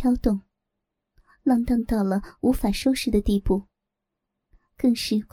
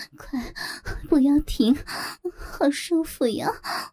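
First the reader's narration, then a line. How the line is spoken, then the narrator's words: Sweet, coquettish voice. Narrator (Chinese): 那声音又甜又腻又媚，娇滴滴的在刘正耳边不停回响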